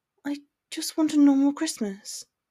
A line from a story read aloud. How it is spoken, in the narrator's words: she whispered sadly